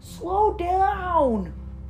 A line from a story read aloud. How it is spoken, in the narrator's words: yelled Lightning